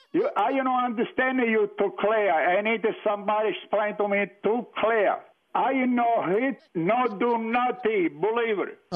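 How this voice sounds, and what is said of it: Put-on foreign accent, broken English. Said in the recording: “don't try that accent. I don't understand English thing.”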